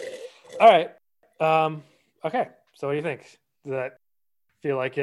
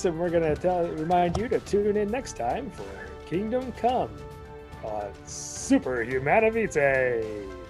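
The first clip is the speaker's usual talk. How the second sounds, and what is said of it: Radio announcer voice. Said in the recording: “put on my radio announcer voice”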